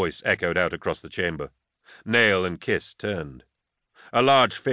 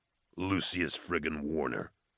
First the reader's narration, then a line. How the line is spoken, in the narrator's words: Nail growled